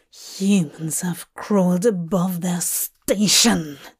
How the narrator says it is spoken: Dream spat

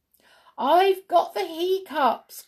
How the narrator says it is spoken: cried as she skipped along over the hill

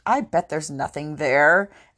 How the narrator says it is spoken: scoffed

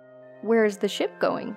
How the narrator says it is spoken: asked in a casual tone

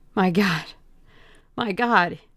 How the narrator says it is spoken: cried

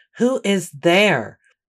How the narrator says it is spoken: a booming voice call out

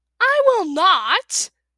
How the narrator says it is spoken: shouted, clawing at the smooth stone floor

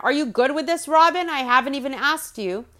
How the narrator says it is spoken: he shouts over to Robin

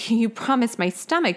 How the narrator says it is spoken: Joey exclaimed

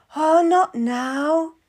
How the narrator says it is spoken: moans

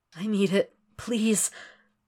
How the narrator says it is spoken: Will moans when he feels slick fingers prodding against his hole

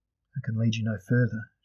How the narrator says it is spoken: Sharila said wearily

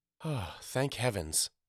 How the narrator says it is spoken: said with a deep sigh of relief

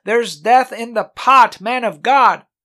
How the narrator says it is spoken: they cried out

